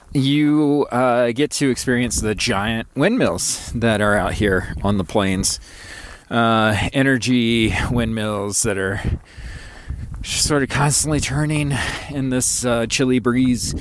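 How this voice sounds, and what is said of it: Chattery, cracking voice from cold. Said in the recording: “very cold today, by the way, which may be why my voice is a little chattery or cracky or whatever”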